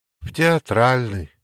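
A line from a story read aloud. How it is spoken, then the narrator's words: Sighing. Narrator (Russian): вздохнула Кира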